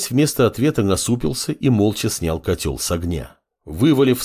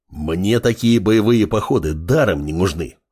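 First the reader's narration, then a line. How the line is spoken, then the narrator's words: Growling wolf. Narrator (Russian): рыкнул волк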